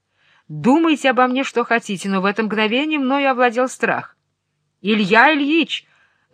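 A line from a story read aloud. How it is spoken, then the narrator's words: Yelling. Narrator (Russian): заорало это белое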